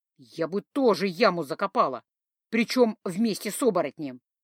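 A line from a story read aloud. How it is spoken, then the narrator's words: Loud stage whisper. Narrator (Russian): лиса громким шепотом, таким, что глухой услышит, заметила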